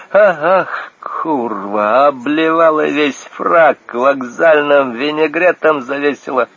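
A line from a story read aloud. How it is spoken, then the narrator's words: Groaning. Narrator (Russian): застонал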